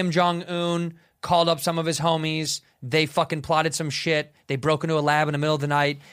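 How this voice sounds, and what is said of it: Usual voice. Nothing is said of it.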